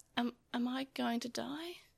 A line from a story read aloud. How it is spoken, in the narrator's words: He whispered to himself